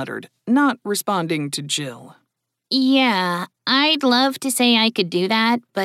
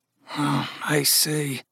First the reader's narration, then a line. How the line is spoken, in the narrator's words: Gus muttered